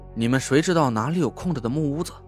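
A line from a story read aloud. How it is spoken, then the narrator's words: Sulky muttering. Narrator (Chinese): 潘浩悻悻的嘟囔着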